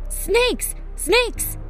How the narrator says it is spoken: he cried out

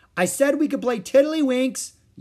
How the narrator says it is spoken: yelled Ramona

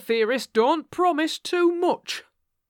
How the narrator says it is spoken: snapped the detective

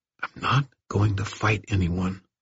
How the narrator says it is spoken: Irwin all but whispered

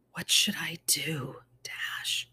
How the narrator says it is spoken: She whispered

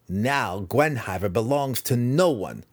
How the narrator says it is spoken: Massage sneered

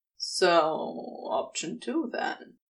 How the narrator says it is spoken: Crowley drawled, not bothering to fight down his smirk

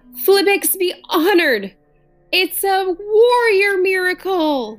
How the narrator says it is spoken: Tar Gibbons shouted

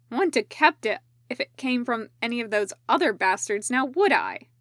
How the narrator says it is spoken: Nomura said sharply

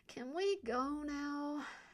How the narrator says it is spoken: Elodie whined

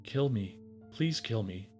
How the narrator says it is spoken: the parrot whispered softly, carefully, as if only a half dozen breaths were left in its life

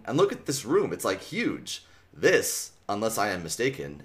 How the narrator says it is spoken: Axe said calmly

